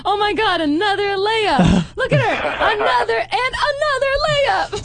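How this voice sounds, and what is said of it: Mock sports announcer voice. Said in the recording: “my impression of what it sounds like to be an announcer at a women's basketball”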